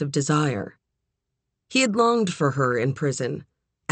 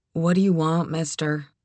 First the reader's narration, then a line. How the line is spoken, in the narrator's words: She said, her voice husky and bored